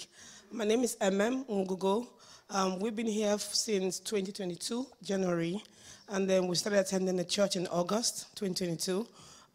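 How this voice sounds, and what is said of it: Hoarse, weak voice from cold. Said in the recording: “I lost my voice. I had cold this week.”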